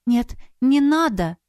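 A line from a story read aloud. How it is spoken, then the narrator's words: Frightened exclamation. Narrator (Russian): воскликнула испуганно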